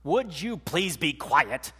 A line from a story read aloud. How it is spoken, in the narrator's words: He snapped at his sister